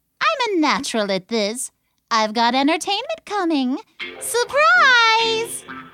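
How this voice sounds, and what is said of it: Perky, upbeat character voice. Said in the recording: “in her perky voice”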